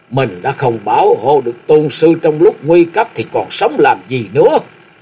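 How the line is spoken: Loud, distraught. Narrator (Vietnamese): Sắc mặt xám ngắt, lão lớn tiếng

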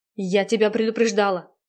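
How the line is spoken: Angry. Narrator (Russian): зло сказала Наташа

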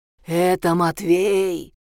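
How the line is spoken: Menacing announcement. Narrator (Russian): Страшным голосом объявляет Белый

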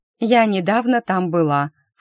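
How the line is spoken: Annoyed snort. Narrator (Russian): фыркнула я, вспомнив Макса, будь он неладен

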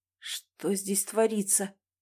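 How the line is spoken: Weak voice, questioning. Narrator (Russian): слабым голосом спросил Николай Иванович

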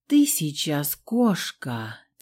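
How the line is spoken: Quiet breathy reply. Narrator (Russian): Тихо выдохнул в ответ болотник

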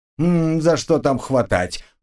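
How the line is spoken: Grumbling. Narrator (Russian): проворчал

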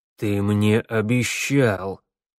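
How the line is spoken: Through clenched teeth. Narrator (Russian): процедил змеевику мэр

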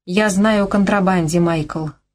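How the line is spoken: Even, level voice. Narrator (Russian): ровным голосом объявила она

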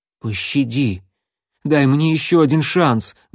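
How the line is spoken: Pleading. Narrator (Russian): взмолился стрелок

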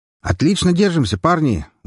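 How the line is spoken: Shouted by a soldier. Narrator (Russian): выкрикнул стрелок из соседнего отряда

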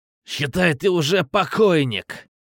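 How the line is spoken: Growling. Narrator (Russian): Зарычал Ахмат

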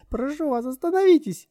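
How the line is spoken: Shouting. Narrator (Russian): закричала Лорен

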